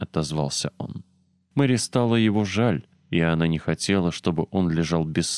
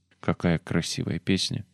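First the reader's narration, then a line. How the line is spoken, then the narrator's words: Increasingly sleepy voice. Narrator (Russian): говорил он все более сонным голосом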